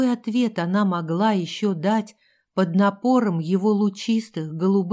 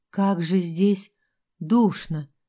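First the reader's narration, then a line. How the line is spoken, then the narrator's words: Stammering mutter. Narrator (Russian): запинаясь, пробормотала она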